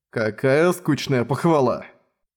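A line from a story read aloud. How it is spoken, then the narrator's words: Discontented grumble. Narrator (Russian): Недовольно проворчал Миллер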